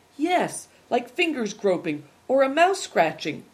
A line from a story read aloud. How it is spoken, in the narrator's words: cried Christian